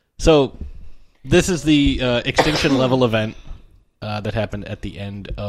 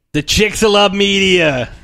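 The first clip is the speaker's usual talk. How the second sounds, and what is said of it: Exaggerated put-on accent. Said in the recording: “Is my accent that bad?”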